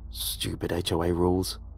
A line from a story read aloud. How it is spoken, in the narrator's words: I muttered to myself